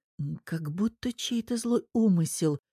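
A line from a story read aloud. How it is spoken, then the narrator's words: Whisper. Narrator (Russian): шептала Лиза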